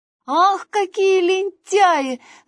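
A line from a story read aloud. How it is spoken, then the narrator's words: Shouting after them. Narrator (Russian): закричал им вслед Василек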